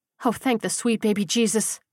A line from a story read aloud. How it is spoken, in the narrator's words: Mandy groaned